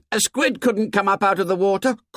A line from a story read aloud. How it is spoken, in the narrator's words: Someone shouted